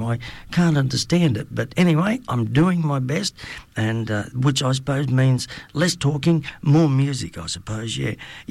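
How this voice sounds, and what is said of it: Unwell, strained-sounding voice. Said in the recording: “excuse my voice. I'm still fighting this damn flu”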